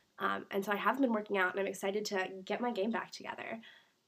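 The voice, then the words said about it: Congested voice from a cold. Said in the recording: “I have a cold. If you guys can't tell, it's getting a lot better, but yesterday I sounded awful.”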